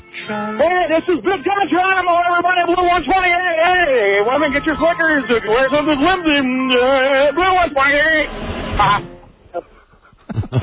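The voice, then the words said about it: Impression of Don Geronimo. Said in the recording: “That is the greatest impression of you I think I've ever heard.”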